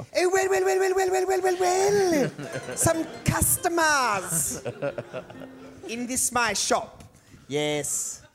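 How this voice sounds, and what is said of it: Exaggerated put-on Italian accent. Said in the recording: “racist Italian accent”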